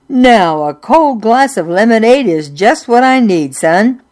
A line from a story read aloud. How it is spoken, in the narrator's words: his voice boomed